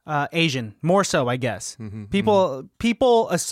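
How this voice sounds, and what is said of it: Usual voice. Nothing is said of it.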